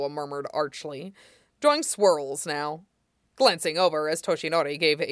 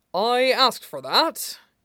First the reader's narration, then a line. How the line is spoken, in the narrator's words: says, chuckling, wincing, but not in a bad way